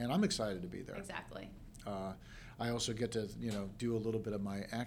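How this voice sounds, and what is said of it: Usual voice. Nothing is said of it.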